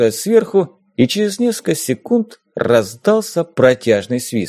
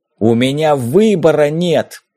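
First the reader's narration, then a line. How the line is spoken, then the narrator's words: Barked in face. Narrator (Russian): рявкнул я ему прямо в лицо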